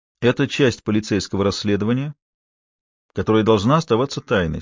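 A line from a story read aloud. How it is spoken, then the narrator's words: Calm. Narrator (Russian): спокойно произнес он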